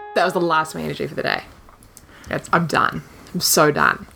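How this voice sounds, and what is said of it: Heavy vocal fry. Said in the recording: “we're going to be so fry-y today. I'm very vocal fry.”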